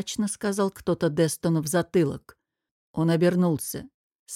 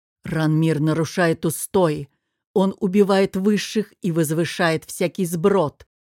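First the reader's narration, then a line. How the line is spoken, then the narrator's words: Angry. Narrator (Russian): зло сказал Анрис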